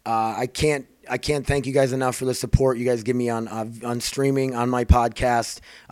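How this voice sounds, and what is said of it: Strained, worn-out voice. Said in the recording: “My voice is not gonna make it”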